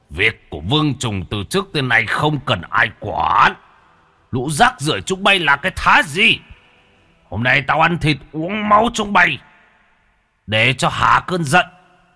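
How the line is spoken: Roar. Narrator (Vietnamese): Trùng Dần gầm lên một tiếng

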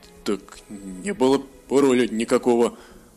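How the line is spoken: Uncertain. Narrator (Russian): Неуверенно сказал Хеншур

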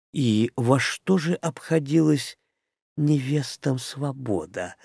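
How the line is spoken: Gentle question. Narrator (Russian): ласково спросила Шарха

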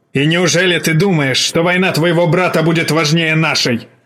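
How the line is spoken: Old man barking. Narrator (Russian): рявкнул старик

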